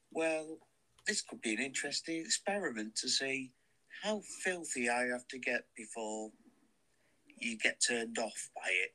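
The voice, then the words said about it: British accent. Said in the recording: “the British accent, in particular my accent.”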